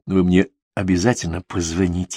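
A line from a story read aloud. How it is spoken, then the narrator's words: Very quiet. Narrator (Russian): сказала она почему-то очень тихо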